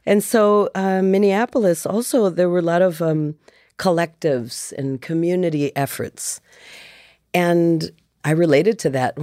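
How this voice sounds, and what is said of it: Slight Midwestern American accent. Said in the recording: “I hear the Midwest there. ... little bit of that. ... She has a Midwest accent”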